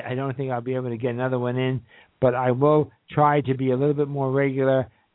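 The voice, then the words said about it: Tired, strained voice giving out. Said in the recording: “my voice is already giving out for today”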